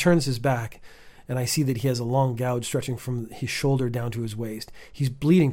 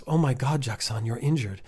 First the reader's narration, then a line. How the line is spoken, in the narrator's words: I gasp